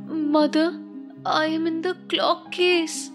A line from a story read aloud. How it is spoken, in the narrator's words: the youngest one, a soft voice cried